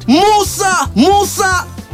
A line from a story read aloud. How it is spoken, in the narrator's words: The crowd shouted